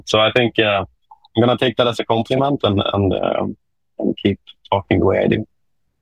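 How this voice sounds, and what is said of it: Swedish-accented English. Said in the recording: “' accent pretty sexy, like those European accent ... my Swedish English accent is popping out”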